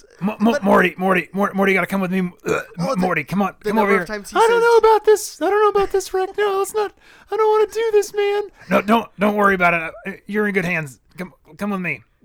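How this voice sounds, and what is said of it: Excellent Rick and Morty cartoon voices. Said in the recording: “doing an excellent impression ... I thought that was actually, you know, a voiceover we just piped in”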